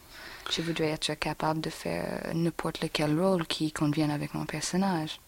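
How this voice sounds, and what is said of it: Foreign accent speaking French. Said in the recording (French): “je voudrais ne pas sentir limitée par un accent.”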